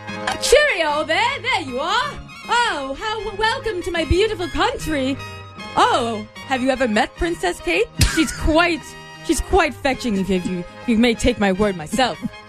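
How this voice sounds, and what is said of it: Put-on British accent. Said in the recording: “So now I have to compete against him in my British accent... who has the better British accent”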